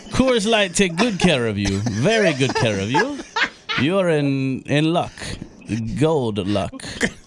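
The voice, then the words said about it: Strange put-on leprechaun accent. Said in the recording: “That's the strangest leprechaun accent I've ever heard.”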